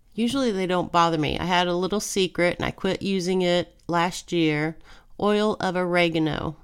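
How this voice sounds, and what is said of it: Nasal, congested voice. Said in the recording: “My voice is very nasally. Allergies”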